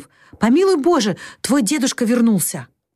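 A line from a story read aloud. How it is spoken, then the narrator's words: Alarmed cry. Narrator (Russian): Джо встревоженно вскрикнув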